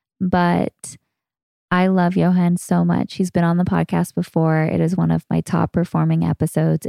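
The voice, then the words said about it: Raspy, strained voice. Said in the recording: “You'll have to excuse my raspy voice. I think I'm losing it.”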